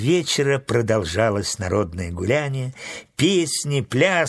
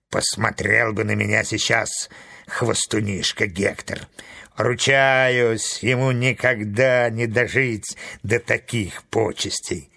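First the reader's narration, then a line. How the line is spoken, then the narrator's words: Grumbling to himself. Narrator (Russian): Он ворчал про себя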